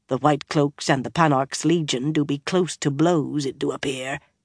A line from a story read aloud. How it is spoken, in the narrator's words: murmured